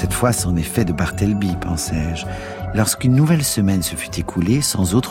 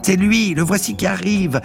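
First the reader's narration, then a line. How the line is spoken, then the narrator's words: Group leader exclaiming. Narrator (French): s'écria le chef du groupe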